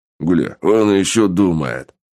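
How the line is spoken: Short laugh. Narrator (Russian): хохотнул помощник

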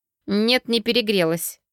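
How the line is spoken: Through gritted teeth, angry. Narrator (Russian): процедила я, сжимая кулаки

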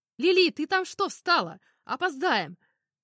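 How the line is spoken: Shouting while running past. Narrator (Russian): крикнул ее друг Томми, пробегая мимо

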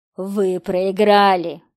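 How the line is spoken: Hiss. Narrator (Russian): прошипел голос

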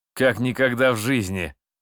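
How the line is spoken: Cheerful laughter. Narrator (Russian): Васильчиков весело расхохотался

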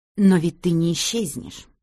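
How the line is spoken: Pitying, through gritted teeth. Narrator (Russian): процедила Одри с жалостью

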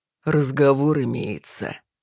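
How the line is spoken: Through gritted teeth. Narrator (Russian): Незнакомец процедил

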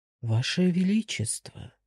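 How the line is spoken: Timid, worried address. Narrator (Russian): робко обратился к нему обеспокоенный слуга

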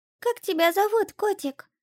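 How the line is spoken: Thin little voice. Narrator (Russian): спросила она меня своим тоненьким голоском

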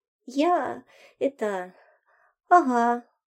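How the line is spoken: Timid babble. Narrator (Russian): пролепетал зайка

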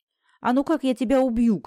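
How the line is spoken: Sudden shout. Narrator (Russian): крикнул он вдруг

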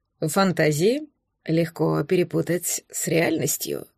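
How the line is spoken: Hoarse voice. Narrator (Russian): хриплым голосом сказал герцог

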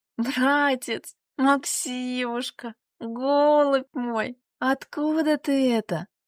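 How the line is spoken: Breaking into sobs. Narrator (Russian): Она не выдержала и разрыдалась

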